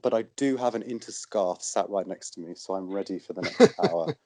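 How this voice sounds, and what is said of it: Voice with a slight cold. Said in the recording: “I have a bit of a cold”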